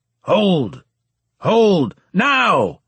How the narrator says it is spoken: shouted Borges

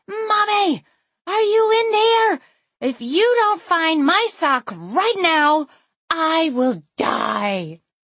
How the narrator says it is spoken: some small person shouting

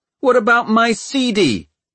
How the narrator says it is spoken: shouted Tom

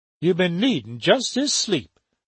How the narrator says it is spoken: told him kindly

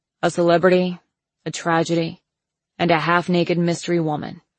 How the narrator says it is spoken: he said, recapping

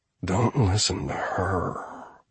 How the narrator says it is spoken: he murmured

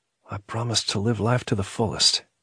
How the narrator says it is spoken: He found himself whispering

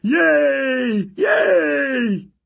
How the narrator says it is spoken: Tyson ran after them yelling

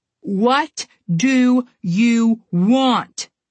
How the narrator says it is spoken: Connor shouted

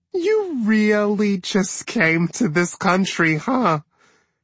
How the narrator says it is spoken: Jende laughed back, embarrassed and amused all at once

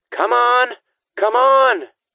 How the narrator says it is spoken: Kate yelled

